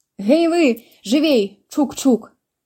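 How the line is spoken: Shouting. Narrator (Belarusian): крычала яна

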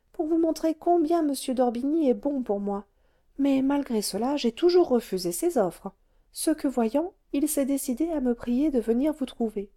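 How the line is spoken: Modest sigh. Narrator (French): dit Madame d'Orbigny avec un soupir de modestie

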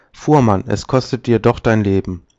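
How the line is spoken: Call. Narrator (German): ruft

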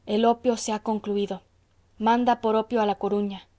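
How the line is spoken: Murmured. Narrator (Spanish): murmuró el farmacéutico

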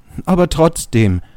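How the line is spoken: Called out. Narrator (German): rief

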